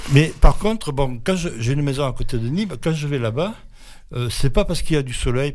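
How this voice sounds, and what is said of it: Southern French Midi accent. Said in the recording (French): “je suis originaire du Midi... Avec l'accent.”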